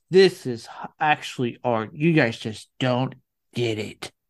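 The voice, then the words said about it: Mocking hipster character voice. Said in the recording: “legitimately good impression of those people... I didn't like that voice. You sounded like the fat fish who ate the pickles in SpongeBob.”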